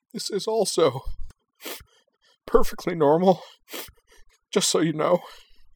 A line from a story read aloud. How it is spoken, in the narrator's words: Anthy sobbed